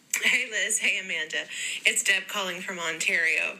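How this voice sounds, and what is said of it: Canadian accent. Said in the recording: “her accent because she's from Canada”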